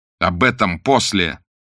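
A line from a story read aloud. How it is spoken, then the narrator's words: Almost angry interruption. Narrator (Russian): почти сердито прервал их Блад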